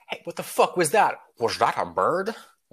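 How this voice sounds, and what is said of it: Sean Connery impression. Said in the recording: “I'll show you my Sean Connery later. It's very easy to impersonate him. ... Sean Connery voice.”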